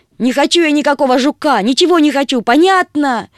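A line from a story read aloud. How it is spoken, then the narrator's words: Upset shout. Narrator (Russian): крикнула Агата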